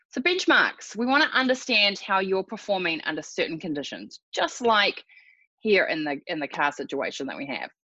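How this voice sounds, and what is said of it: Slightly raspy voice. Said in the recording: “my voice is a little raspy ... hopefully not have too many coughing fits”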